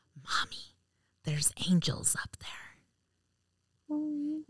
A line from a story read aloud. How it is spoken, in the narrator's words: she whispered